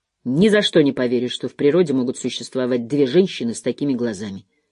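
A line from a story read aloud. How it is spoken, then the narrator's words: Muttered. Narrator (Russian): Харт пробормотал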